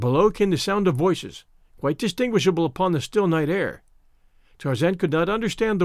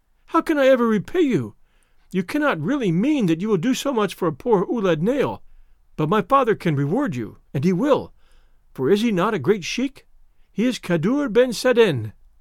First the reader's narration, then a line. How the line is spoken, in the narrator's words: she cried